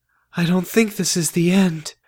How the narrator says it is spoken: I said in a weak voice

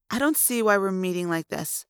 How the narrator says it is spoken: the woman said

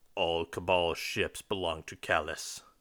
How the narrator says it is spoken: the Centurion growls

